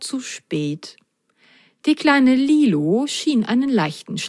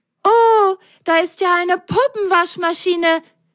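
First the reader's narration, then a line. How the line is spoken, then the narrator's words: Delighted loud call. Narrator (German): Völlig entzückt rief Lili laut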